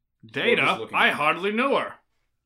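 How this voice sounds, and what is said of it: Impersonation of Star Trek's Data. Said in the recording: “that was Data trying to be a comedian. That was my impersonation.”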